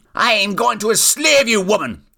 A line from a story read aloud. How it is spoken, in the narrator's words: yelled the wizard